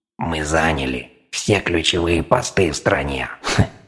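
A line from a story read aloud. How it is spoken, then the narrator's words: Scornful snort. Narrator (Russian): фыркнул рептилоид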